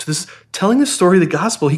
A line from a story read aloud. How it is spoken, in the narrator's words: he cried out